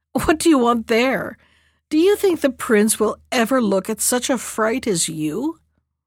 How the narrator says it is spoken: the others laughed at her and said

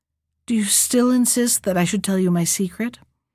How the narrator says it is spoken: the prince said sadly

